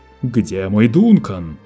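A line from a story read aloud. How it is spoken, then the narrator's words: Roaring. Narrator (Russian): проревел Лето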